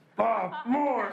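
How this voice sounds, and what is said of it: Imitates another person's voice. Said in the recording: “in my Pat Mahomes voice”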